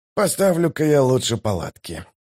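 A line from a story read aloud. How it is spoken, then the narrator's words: Mumbled. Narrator (Russian): пробормотал он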